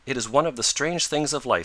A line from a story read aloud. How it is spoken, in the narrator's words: said she